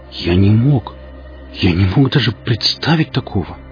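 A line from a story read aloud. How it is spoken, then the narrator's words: Shocked breathless exclamation. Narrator (Russian): выдохнул потрясенный Зотов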